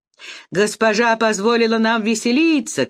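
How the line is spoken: Shouting. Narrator (Russian): кричали они

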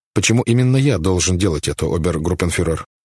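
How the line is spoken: Plain. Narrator (Russian): спросил Айсман

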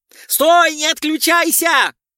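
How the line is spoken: General yelling. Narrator (Russian): заорал генерал

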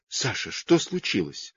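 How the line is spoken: Weak voice. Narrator (Russian): Слабым голосом сказала мама

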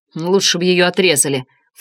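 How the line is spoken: Snorting. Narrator (Russian): фыркнул он

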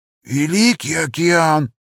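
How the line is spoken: Wheezing at last. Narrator (Russian): просипел он наконец

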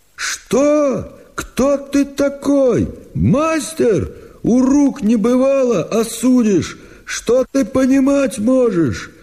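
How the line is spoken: Angry shouting. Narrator (Russian): Прокопич закричал

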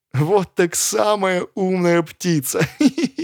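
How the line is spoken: Thin giggling voice. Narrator (Russian): послышалось хихиканье, тоненький голосок сказал

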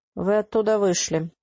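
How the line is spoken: Tired. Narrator (Russian): устало сообщила она

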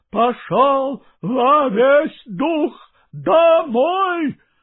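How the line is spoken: Shouted in a strange voice. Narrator (Russian): закричал кучеру не своим голосом

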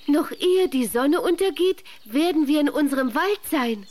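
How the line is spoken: Joyful neighing cry. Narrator (German): rief das Holzpferdchen und wieherte vor Freude

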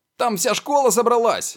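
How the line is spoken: Shout. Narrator (Russian): прокричал Фред Уизли

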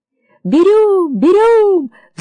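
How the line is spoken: Children shouting in chorus. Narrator (Russian): закричали ребята хором

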